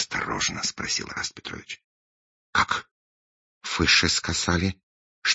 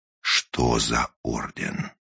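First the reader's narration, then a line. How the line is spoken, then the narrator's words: Menacing repetition. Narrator (Russian): грозно повторил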